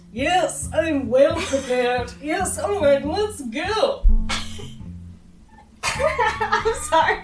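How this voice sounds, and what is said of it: Snooty put-on character voice. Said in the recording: “my character voice ... you sound like my dad doing his snooty voice ... waffling between a snooty and my personal favorite Voldemort voice”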